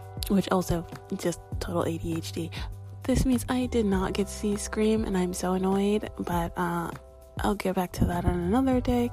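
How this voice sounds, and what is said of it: Whispering, hushed voice. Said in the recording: “I'm kind of whispering, because everybody's in the house. And I'm trying not to draw attention to myself”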